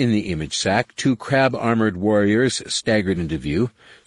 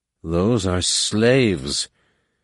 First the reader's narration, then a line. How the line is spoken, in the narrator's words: Numenor breathed